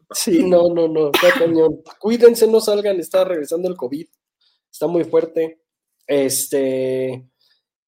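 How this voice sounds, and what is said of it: Hoarse, deepened voice from illness. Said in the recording (Spanish): “voz de hombre, de que estuvimos un poquito enfermos ... me dejó una tos padrísima”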